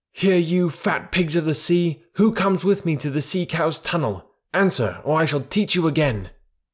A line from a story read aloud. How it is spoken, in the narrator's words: roared Kotick